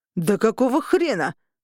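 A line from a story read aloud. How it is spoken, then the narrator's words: Roar. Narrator (Russian): взревел Винсент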